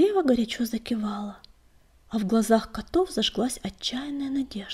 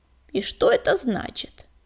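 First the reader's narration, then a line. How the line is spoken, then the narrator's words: Creaky old voice. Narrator (Russian): проскрипел кто-то из старейшин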